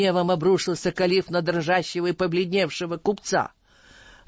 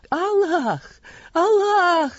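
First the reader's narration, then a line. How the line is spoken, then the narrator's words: Exclaimed. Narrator (Russian): воскликнул тот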